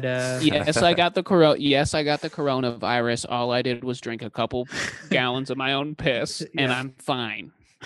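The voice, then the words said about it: Imitates another person's voice. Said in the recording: “That's my Trump. ... My Trump impression. ... That was good, man.”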